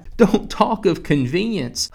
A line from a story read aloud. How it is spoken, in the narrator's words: Hudson cried desperately